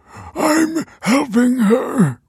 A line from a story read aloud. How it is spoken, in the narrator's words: wheezed Michael